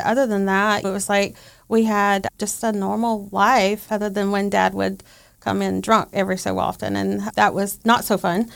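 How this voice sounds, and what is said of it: Southern American accent, Georgia. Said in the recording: “just a normal Southern girl, which you can probably tell by my accent ... Georgia”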